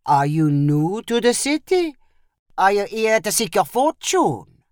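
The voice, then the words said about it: Put-on French Caribbean accent. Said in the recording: “in a French Caribbean accent.”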